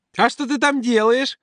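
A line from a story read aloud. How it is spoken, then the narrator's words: Squeaky, injured fat boy. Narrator (Russian): Пискнул Санька, тот самый, травмированный вчера толстяк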